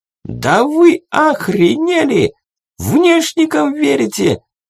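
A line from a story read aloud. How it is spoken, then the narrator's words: Giant nearly shrieking. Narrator (Russian): Чуть не завизжал великан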